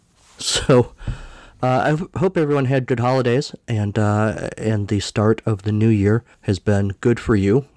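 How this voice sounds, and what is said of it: Voice slightly off from cold. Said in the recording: “I have a cold ... My voice is probably a little off”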